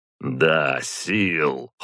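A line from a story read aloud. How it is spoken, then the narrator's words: Cold. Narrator (Russian): холодно сказал Ярослав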